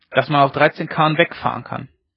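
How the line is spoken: Calling out. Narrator (German): rief Ole Peters

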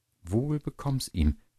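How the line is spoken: Plain. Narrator (German): sagte die Köchin

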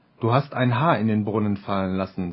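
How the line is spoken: Plain. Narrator (German): sagte er

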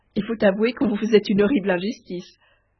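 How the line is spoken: Laughing heartily. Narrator (French): dit Dame de beauté en riant de toute sa force

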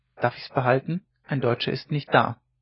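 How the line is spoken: Terse boy's remark. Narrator (German): Der Junge, der von wenig Worten war, sagte nur

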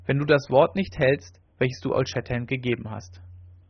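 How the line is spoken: Proud, calm answer. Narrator (German): antwortete Winnetou stolz und ruhig

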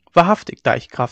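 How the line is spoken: Plain. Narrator (German): sagte er

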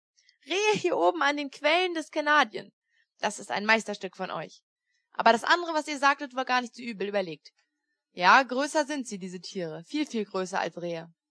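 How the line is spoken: Laughing. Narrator (German): lachte er

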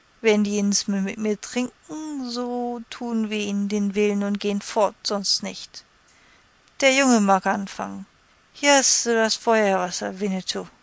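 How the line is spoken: Drunken slurred speech. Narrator (German): sagte mit lallender Zunge

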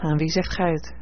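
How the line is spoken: Sighing reply. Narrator (Dutch): hernam ze met een zucht

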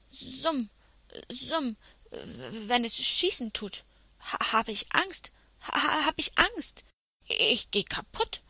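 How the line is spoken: Knight stammering when confronted. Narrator (German): stotterte der edle Ritter, als man ihn zur Rede stellte

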